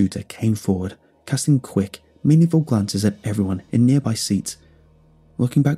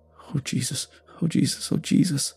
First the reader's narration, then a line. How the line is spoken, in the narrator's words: The bus driver muttered